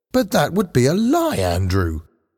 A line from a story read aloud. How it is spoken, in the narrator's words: Paul exclaimed